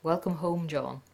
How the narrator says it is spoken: she murmured

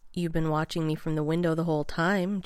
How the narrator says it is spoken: John said

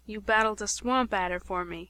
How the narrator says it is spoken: he murmured

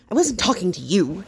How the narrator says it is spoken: Dustin snaps

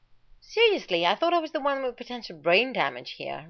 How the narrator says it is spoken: Rodney snapped

